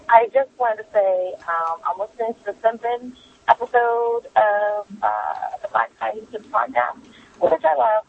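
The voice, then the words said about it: Hoarse, strained voice. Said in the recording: “I have a little bit of laryngitis right now. My voice is sounding a little bit messed up.”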